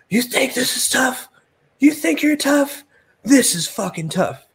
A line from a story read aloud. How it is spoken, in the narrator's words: He feeds off the crowd and begins screaming at Stevie